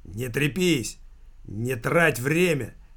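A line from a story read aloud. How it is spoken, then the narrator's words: Barked. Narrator (Russian): рявкнул Никита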